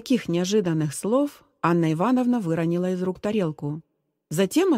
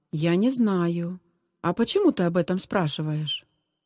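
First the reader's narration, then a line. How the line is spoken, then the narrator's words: Plain. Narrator (Russian): Зиночка ответила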